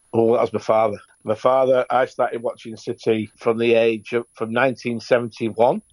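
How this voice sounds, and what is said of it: Manchester accent. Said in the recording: “judging by your accent, you're a local to Manchester”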